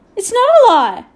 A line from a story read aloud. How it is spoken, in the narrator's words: Patrick shouted suddenly